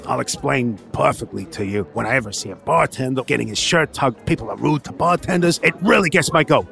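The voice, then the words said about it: Put-on bartender character voice. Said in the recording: “why you sound like a bartender? ... I've started sounding like ... bartenders.”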